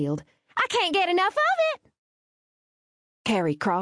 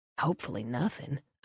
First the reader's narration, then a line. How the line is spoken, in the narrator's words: I whispered